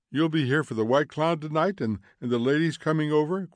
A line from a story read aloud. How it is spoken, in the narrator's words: cried Mildred